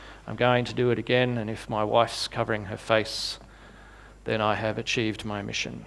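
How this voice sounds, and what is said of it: Usual voice. Nothing is said of it.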